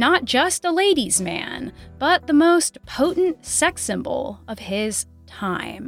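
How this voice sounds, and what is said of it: Usual voice. Nothing is said of it.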